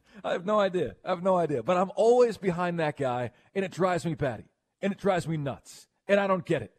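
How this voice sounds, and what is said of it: New York accent. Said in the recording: “You're using your New York accent”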